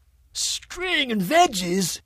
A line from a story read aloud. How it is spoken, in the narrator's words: Stanley howled with tears of mirth